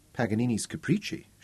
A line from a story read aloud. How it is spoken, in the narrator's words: murmured